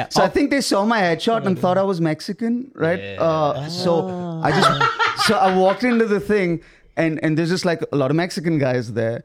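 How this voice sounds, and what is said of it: Indian accent from Mumbai. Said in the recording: “I'm from Mumbai. Would you like me to do it in this accent or the American accent? ... I did the audition in this accent”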